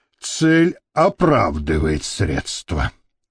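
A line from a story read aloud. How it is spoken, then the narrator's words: Self-consoling mutter. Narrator (Russian): утешая себя этой мыслью, пробормотал Гарик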